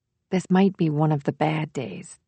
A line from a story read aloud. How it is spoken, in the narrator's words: whispered Jameson